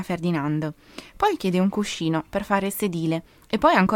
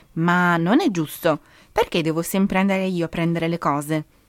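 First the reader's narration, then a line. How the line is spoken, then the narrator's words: Exasperated outburst. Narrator (Italian): sbotta Simone all'ennesima richiesta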